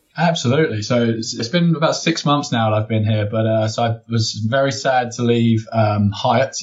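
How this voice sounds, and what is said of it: English accent. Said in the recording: “my English partner in crime ... it's good to hear that accent again”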